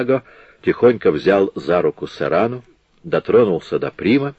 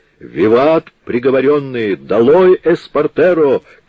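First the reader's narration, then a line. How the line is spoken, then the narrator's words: Shouting. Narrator (Russian): крикнул другой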